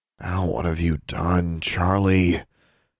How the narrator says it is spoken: she groaned to herself

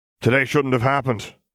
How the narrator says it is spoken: Moody grumbled

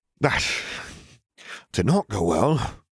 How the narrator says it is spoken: he sighed

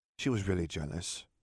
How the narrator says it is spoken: Katie murmured

